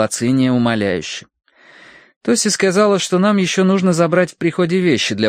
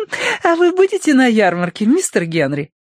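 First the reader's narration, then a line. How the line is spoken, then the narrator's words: Giggle. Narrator (Russian): хихикнула Лилия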